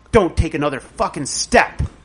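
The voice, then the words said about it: Mean, scary, authoritative voice. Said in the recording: “In, like, a mean, scary voice. ... Like, with authority.”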